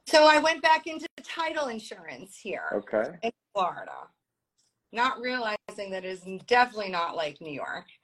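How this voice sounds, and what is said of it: New York Brooklyn accent. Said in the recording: “my accent, people were offended by it over the phone ... born in Brooklyn, raised in Long Island”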